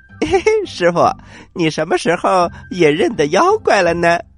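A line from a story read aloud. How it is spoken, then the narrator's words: Smiling. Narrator (Chinese): 悟空笑着说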